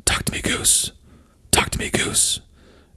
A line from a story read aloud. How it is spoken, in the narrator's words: whispers